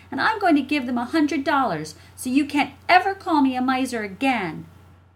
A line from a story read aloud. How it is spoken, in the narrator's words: shouted Jessie